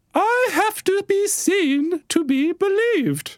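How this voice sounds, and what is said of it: Put-on British received pronunciation accent. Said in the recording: “tries to speak like Her Majesty ... in a perfect British received pronunciation ... Pretty good. It's pretty good.”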